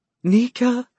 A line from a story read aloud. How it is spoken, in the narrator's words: Callie said, too choked up with emotion to finish the sentence